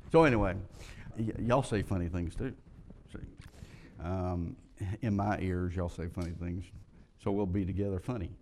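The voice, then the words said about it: American Southern accent. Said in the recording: “my southern language ... it's my funny accent”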